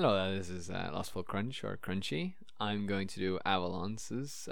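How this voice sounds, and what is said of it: Usual voice. Nothing is said of it.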